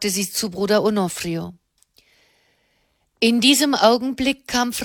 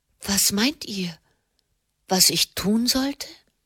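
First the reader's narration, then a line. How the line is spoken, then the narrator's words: Gentle question. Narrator (German): fragte sie sanft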